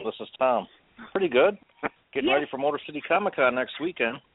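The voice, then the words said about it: Northern drawl accent. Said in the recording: “I love his accent. He's got that northern draw.”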